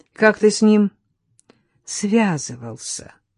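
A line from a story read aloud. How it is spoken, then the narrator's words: Gentle question. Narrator (Russian): ласково спросила Татьяна у Германа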